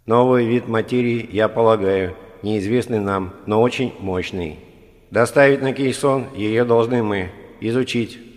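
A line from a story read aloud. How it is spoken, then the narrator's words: Plain. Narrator (Russian): ответил Моа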